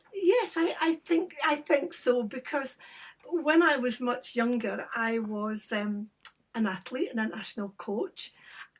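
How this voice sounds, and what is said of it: Gentle Scottish accent. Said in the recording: “you have got a fabulous Scottish accent. So it's very gentle, it's very easy on the ear.”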